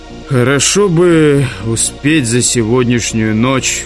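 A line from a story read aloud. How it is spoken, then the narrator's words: Sighing. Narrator (Russian): вздохнул он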